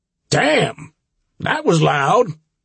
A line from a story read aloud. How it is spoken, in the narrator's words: Ray exclaimed